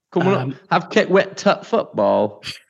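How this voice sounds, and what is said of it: Imitated Yorkshire accent, 'the' as 't'. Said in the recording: “Is that Yorkshire? ... I don't know if this is a dialect or an accent thing, but they often, rather than saying the, just put a t in there, don't they?”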